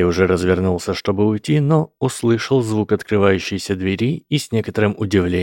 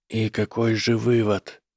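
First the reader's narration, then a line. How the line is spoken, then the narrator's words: Whispering together. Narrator (Russian): прошептали они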